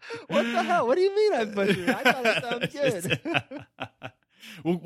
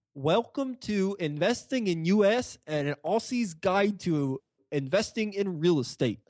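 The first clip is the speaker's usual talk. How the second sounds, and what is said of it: Poor attempt at an Australian accent. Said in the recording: “I'll give you an A for effort, but you butchered that ... we'll compare my accent to your accent”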